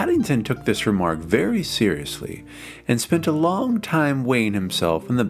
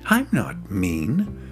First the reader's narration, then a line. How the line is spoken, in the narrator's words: said Paddington indignantly